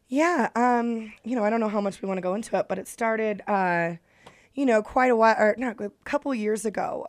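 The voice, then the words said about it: Slightly scratchy radio voice. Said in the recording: “perfect radio voice. It's just a little bit scratchy.”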